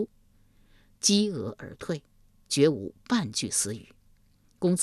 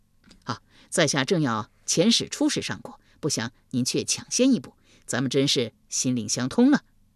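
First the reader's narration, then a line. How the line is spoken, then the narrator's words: Fawning smile. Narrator (Chinese): 夷吾一脸媚笑道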